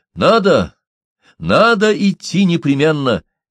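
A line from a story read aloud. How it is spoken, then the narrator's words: Exclaimed. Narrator (Russian): воскликнул Гейсмар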